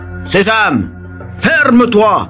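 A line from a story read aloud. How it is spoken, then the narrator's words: Leader shouting. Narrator (French): crie le chef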